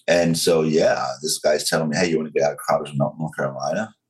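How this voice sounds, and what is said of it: Southern US accent, slow controlled. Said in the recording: “I can hear your southern accent ... part of the reason I talk so slow and controlled now”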